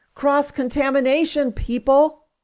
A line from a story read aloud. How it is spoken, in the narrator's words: I'm yelling in my head